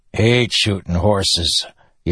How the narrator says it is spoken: Yennin grumbled

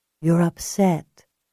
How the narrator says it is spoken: Julia said in a soothing voice

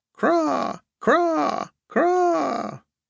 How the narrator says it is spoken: Mournfully screeching, the gulls

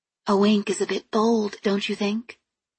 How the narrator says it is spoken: I asked quietly

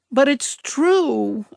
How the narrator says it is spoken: I sobbed

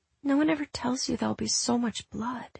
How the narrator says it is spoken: she whispered, ebbing away

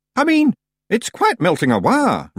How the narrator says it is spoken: Rob said, smiling nervously

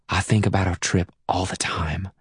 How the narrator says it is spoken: she whispers

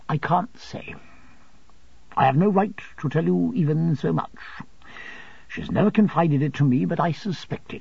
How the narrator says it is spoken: returned my aunt gravely

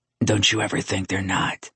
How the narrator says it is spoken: He whispered, his breath teasing her lips

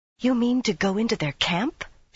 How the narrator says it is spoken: she whispered

